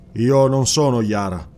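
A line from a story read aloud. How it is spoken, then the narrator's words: Plain. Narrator (Italian): disse il cimmero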